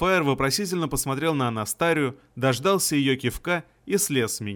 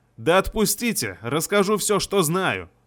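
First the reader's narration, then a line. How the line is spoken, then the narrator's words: Barked shout. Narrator (Russian): рявкнул я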